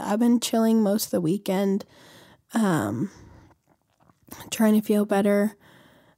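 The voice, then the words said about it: Slightly weird-sounding voice. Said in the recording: “my voice sounds a little weird today”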